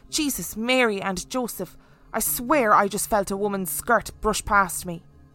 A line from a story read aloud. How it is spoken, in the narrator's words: Anne exclaimed out loud